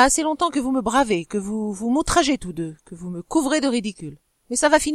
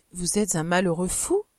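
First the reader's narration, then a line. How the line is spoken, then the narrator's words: Soft speech. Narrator (French): dit-elle doucement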